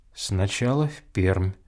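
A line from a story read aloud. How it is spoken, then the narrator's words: Quiet. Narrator (Russian): тихо говорил Чечевицын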